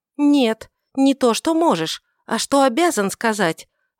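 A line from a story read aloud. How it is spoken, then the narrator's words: Irritated exclamation. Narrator (Russian): воскликнула Иудив раздраженно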